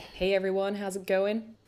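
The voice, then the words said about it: Bad put-on American accent, manly voice. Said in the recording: “that was the worst American accent ever... that was supposed to be an American accent?... I just went manly”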